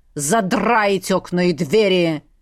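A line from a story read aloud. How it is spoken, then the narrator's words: Barked order. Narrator (Russian): гаркнул отец на испуганную горничную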